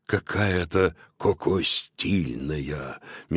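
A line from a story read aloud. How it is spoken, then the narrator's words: Dreamy sighing whisper. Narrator (Russian): мечтательно вздохнув, прошептал Додо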